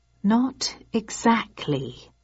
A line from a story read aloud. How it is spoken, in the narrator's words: I said slowly